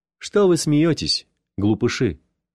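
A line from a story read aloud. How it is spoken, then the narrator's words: Plain. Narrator (Russian): сказал я ребятам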